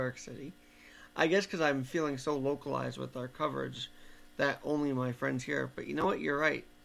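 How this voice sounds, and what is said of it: Usual voice. Nothing is said of it.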